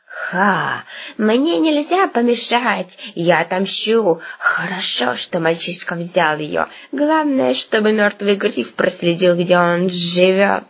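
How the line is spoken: Creaky voice. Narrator (Russian): проскрипело оно

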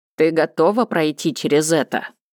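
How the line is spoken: Stern question. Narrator (Russian): строго спросил Уэйн

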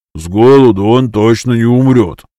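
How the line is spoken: Grumbling. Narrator (Russian): проворчал Энку

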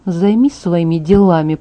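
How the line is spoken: Quiet mutter. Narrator (Russian): пробурчала тихо, чтобы он не услышал

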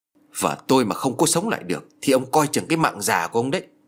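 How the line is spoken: Harsh threatening voice. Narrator (Vietnamese): Gã phu ngựa gằn giọng

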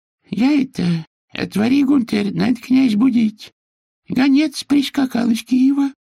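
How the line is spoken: Thin high voice. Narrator (Russian): сказал дружинник тонким голоском Прокопия

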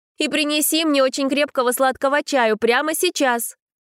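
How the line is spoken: Shouted request. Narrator (Russian): Уже в спину дворецкому прокричала она

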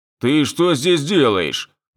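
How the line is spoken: Deliberately gruff question. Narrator (Russian): нарочито грубым голосом спросил я

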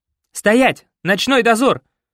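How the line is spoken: Shout. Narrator (Russian): крикнул Артем

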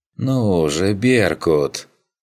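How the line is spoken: Drawn out. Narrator (Russian): протянул он

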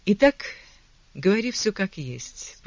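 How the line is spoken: Firm decree after deep sigh. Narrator (Russian): постановила Хелена, глубоко вздохнув

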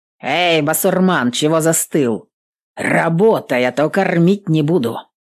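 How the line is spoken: Barked shout. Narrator (Russian): гаркнул

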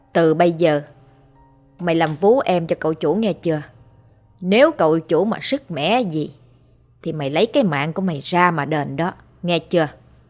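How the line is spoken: Harsh menacing growl. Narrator (Vietnamese): Bà Hai gằn giọng

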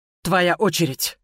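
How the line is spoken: Breathless exhale. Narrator (Russian): выдохнула я

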